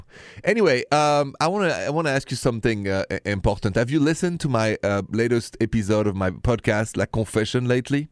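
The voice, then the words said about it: Thick French accent. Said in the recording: “my thick accent is still French”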